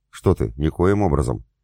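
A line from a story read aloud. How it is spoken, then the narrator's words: Calm reply. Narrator (Russian): спокойно ответила Игнор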